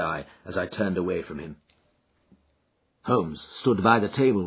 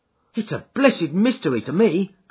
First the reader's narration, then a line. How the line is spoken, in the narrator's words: cried Pycroft